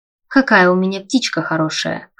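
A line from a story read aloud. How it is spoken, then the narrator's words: Chuckling. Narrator (Russian): хохотнул он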